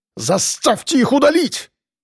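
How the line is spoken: Shouted. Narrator (Russian): закричал Быков

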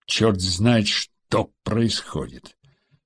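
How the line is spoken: Angry gritted teeth. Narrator (Russian): Зло процедил министр обороны

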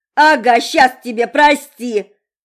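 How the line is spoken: Yelling even louder. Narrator (Russian): Заорала Монро еще громче

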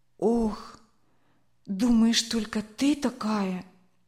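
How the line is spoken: Heavy sigh. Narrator (Russian): Тяжело вздохнула Ирина

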